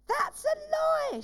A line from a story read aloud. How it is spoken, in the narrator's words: shouted the woman with the baby